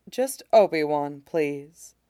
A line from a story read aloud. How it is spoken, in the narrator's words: says, quietly